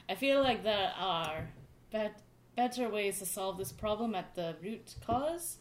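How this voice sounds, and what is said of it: Mimics another speaker's accent. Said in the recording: “Sorry, I'm mimicking your accent.”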